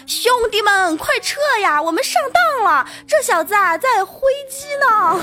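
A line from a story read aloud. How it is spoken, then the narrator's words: Loud shout. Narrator (Chinese): 跑在最前面的小蝌蚪大声喊道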